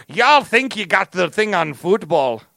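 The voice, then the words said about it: Put-on angry Irish accent. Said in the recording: “some, like, angry Irish guy who's always just like ... That's my Irish accent.”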